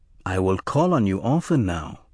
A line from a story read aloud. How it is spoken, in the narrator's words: he said, smiling warmly